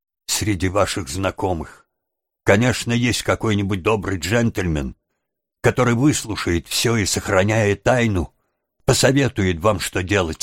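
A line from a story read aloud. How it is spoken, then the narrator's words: Plain. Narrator (Russian): сказала девушка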